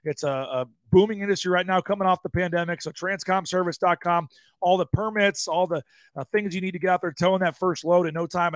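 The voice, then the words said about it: Hoarse, raspy voice. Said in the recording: “I've been dealing with a hoarse voice. It is getting a little better today, but it's not perfect. ... the little bit of the raspiness here.”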